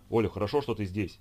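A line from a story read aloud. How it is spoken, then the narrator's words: Rapid chatter while running. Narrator (Russian): затараторил он, подбегая к ней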